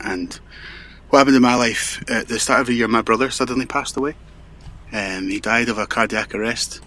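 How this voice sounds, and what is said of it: Strong Scottish-sounding accent. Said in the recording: “a rather strong accent, which I think is Scottish”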